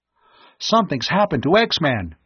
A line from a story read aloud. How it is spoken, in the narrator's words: Tom cried